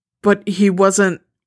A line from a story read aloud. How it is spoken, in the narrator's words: she grunts in frustration